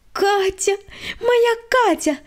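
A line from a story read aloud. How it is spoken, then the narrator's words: Joyful squeal. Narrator (Russian): радостно завизжала Света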